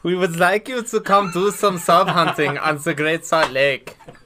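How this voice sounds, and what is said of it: Put-on German accent. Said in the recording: “can you do a German accent”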